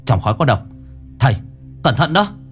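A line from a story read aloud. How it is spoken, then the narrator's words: Shout. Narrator (Vietnamese): Mặc hét lên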